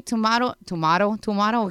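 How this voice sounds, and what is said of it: Put-on Latino accent. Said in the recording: “I said Latino accent”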